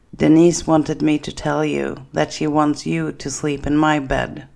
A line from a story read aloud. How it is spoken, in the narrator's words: Kenny then says